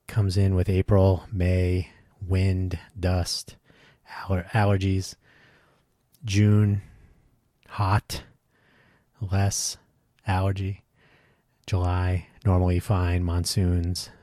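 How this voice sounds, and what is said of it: Labored, congested voice. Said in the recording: “whether I had a cold or just really intense allergies ... you can probably hear it in my voice. It's still labored, as always.”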